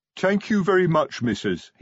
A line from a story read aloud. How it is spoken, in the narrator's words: he said